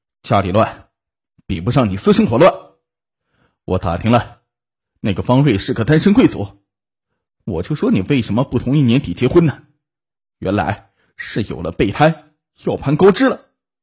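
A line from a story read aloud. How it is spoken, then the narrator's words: Drunken roar. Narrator (Chinese): 陈浩一声酒气的吼道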